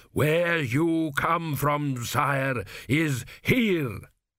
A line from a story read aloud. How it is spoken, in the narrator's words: thundered Dios